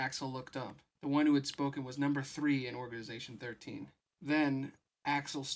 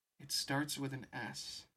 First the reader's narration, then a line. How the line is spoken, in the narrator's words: Kyrie murmured